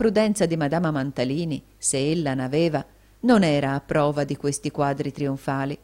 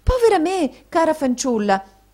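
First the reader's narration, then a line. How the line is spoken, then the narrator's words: Surprised exclamation. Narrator (Italian): esclamò madama Mantalini, arretrando sorpresa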